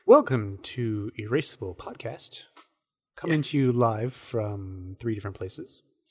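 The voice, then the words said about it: Mock public radio announcer voice. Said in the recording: “I'm going to have to work on my NPR voice. ... Sam has a really good NPR voice.”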